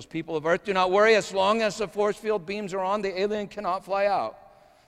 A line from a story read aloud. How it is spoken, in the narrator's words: The technician yells